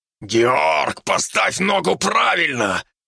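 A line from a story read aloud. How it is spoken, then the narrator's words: Distant growl. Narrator (Russian): прорычал издалека Фердинанд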